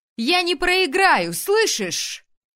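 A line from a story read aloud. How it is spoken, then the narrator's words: Yelled upward. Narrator (Russian): заорала я ввысь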